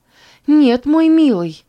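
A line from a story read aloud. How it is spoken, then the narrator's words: Exclaimed. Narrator (Russian): воскликнула Роза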